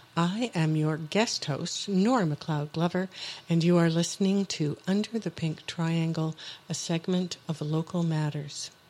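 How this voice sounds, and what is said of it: Beautiful radio voice. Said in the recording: “You have such a beautiful radio voice”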